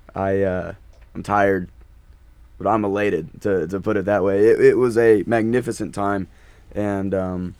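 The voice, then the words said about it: Hoarse voice. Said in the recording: “I'm hoarse.”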